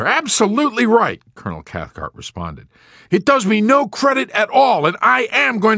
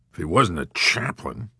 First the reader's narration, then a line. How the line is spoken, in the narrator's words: General Dreidel muttered